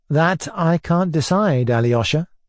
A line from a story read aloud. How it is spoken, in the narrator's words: I answered